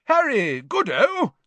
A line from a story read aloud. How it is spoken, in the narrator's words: said Bagman, happily